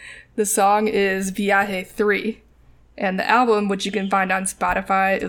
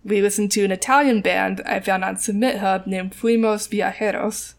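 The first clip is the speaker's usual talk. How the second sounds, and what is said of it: Band name in Spanish accent. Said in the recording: “I know I'm saying that with a Spanish accent.”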